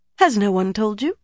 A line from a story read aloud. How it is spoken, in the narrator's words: asked, too brightly